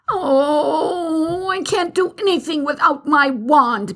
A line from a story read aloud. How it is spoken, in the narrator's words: Bibi cried out